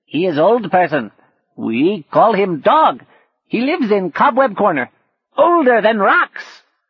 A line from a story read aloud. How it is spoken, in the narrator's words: shouted one of the monkeys